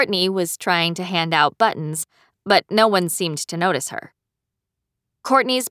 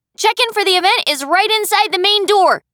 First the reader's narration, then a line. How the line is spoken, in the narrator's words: Sarah called out in her firm, clear voice